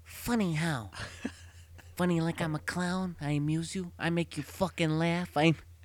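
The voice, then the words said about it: Imitates another person's voice. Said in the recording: “give me your best Joe Pesci impression.”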